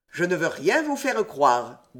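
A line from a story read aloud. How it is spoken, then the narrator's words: Cold. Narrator (French): dit froidement Saint-Germain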